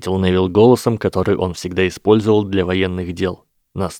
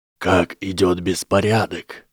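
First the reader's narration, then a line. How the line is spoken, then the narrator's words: Imitated dry whisper. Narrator (Russian): спросил Гарри, подражая сухому шепоту императора Палпатина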